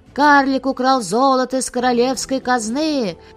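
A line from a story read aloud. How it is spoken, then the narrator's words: Loud shout filling palace. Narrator (Russian): казначей Архас, самый злой враг карлика кричал на весь дворец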